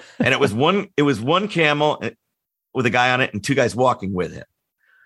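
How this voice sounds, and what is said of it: Usual voice. Nothing is said of it.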